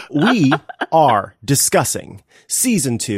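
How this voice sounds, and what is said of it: Usual voice. Nothing is said of it.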